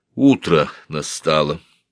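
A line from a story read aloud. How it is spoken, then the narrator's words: Plain. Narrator (Russian): сказала она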